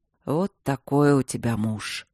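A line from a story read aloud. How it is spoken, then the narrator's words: Muffled mumble. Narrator (Russian): пробормотал глухо ей в шею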